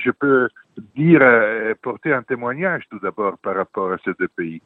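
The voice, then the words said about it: Italian accent in French. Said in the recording (French): “j'ai un accent italien, donc je suis italien”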